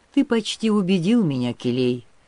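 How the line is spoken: Sad. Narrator (Russian): сказал печально

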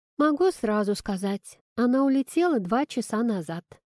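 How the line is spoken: Calm report. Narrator (Russian): спокойно сообщила Кира

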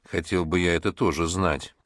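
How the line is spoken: Gloomy child's voice. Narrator (Russian): проговорил малыш, мрачно

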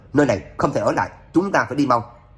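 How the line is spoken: Alarmed loud shout. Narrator (Vietnamese): Trác Phàm mặt chợt biến sắc, hét lớn

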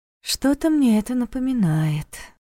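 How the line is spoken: Sigh. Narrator (Russian): вздохнула Лиля

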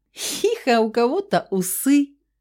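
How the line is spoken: Laughing little girl. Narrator (Russian): Посмеялась мелкая

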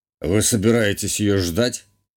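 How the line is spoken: Scoffing grunt. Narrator (Russian): хмыкнул герцог

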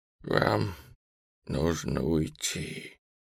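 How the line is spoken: Hoarse widow's wheeze. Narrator (Russian): просипела вдова

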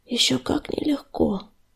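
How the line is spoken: Whispered, lowered voice. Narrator (Russian): прошептал Огнезвезд, понизив голос

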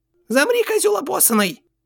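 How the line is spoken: Shrill breaking child's voice. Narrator (Russian): взвизгнул ломающийся детский голос

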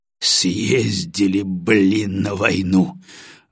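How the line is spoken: Exhaled exclamation. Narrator (Russian): выдохнул Батоныч

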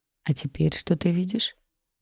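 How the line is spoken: Whisper. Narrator (Russian): Прошептала я

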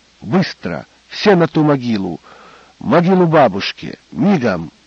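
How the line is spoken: Low and sharp. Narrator (Russian): сказал негромко и резко

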